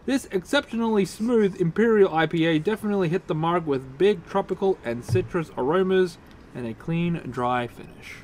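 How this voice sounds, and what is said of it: Australian accent. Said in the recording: “with his Australian accent”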